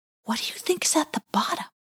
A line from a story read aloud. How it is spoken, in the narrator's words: whispered Wynotti